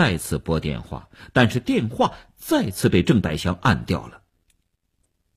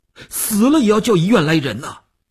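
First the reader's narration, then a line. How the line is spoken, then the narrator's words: Tense, nearly shouting. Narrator (Chinese): 吴长天头皮一紧，他几乎要喊起来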